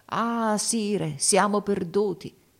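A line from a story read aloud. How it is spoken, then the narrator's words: Exclaiming. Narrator (Italian): esclamò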